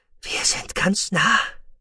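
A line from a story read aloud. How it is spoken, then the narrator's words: Breathy whisper. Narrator (German): hauchte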